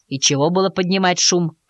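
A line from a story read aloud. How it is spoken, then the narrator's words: Watchman grumbling. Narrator (Russian): пробурчал сторож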